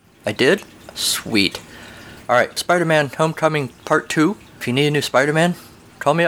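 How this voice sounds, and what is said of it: Usual voice. Nothing is said of it.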